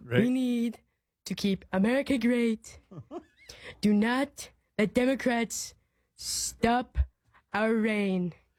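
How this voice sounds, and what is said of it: Donald Trump impression. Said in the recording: “does a Trump impersonation ... That's so good.”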